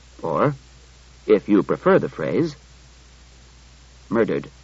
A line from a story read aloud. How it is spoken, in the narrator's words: Daniil added gravely